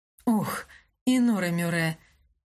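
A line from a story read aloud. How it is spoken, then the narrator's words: Expressive sigh. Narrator (Russian): выразительно вздохнула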